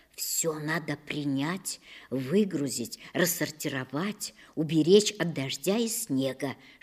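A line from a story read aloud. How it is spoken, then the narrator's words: Tired mother whispering. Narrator (Russian): шептала мне мама, готовясь хоть немного поспать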